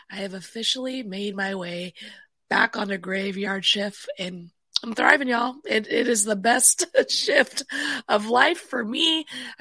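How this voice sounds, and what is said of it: Raspy voice. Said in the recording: “the raspy dispatcher”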